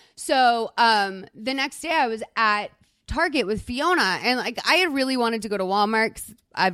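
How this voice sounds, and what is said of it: Usual voice. Nothing is said of it.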